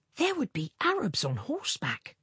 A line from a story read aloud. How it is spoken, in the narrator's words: he whispered